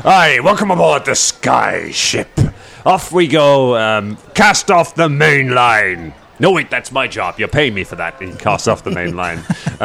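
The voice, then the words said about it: Outlandish sea captain accent. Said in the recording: “accent so outlandish ... It's an unusual accent, except in my profession where it is somewhat ubiquitous ... Tavern keepers and captains”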